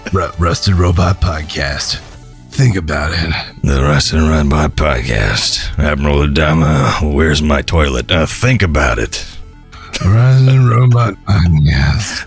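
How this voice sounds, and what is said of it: Imitates Admiral Adama's voice. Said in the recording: “doing an Admiral Adama impression”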